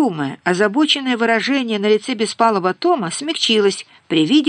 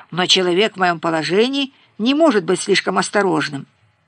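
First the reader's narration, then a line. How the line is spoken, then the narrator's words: Grumbling. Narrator (Russian): проворчал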